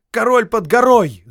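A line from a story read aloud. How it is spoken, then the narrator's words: Crowd shouting. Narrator (Russian): закричали все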